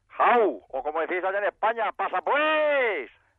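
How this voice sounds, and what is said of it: Exaggerated put-on Spanish regional accent. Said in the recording (Spanish): “¿Y ese acentaco? ... me se pegó el acento ... Pero este acento tampoco es muy de Benidorm.”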